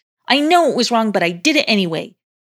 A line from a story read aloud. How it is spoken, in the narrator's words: he blurted out